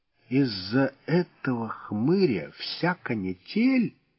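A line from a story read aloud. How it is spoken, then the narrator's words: Disappointed drawl. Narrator (Russian): разочарованно протянул Волосов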